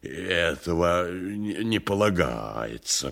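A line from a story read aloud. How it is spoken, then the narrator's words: Muttering. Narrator (Russian): бормотал он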